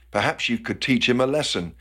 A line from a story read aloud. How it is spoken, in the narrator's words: smiled and whispered